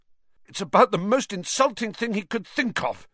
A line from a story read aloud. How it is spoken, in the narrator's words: gasped Ron, coming back up